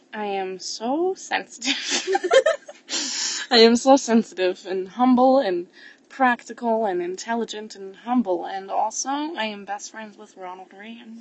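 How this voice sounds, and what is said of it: Put-on Russian accent. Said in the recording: “we're really good at this Russian accent”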